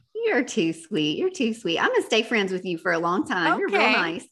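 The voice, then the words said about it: Noticeable regional accent. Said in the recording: “why is my accent? ... Does the accent come out so much more whenever I get all the warm and fuzzies?”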